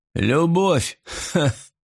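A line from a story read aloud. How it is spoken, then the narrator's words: Father laughing. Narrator (Russian): рассмеялся отец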